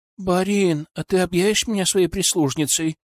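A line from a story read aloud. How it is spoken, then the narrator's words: Pleading question. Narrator (Russian): умоляющим тоном спросила Анна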